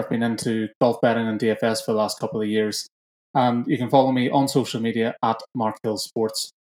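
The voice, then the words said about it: Northern Irish accent. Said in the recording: “based in Northern Ireland, about 20 minutes from Belfast. And as you can tell by the accent, I'm born and bred over here.”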